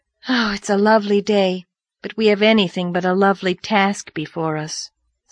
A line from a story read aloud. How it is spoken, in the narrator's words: sighed Diana